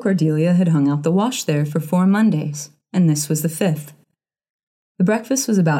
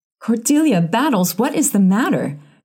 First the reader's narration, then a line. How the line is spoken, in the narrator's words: cried Mrs